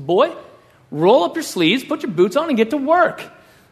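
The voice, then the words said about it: West Texas dad voice. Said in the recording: “That's my impression of my dad. We're from West Texas.”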